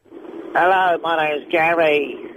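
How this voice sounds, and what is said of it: Poor impression of another person. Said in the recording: “do an impression of Gary ... That was rubbish.”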